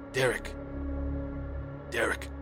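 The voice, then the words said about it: Staticky, distorted creature voice. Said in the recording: “in this very staticky voice”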